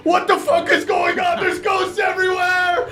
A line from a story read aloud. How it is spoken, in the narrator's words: Everyone starts freaking out and screaming